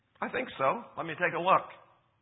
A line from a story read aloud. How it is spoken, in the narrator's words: The private said cheerfully